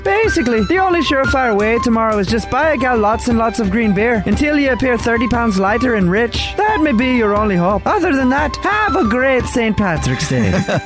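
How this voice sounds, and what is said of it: Leprechaun character voice. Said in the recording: “that's an important PSA from a leprechaun”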